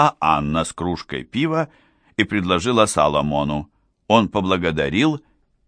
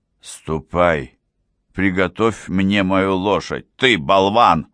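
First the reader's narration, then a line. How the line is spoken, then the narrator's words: Growling. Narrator (Russian): Прорычал он Королусу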